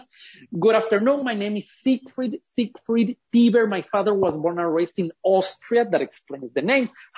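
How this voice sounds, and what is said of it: Ecuadorian Spanish-accented English. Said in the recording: “I was born and raised in Ecuador. That explains the accent.”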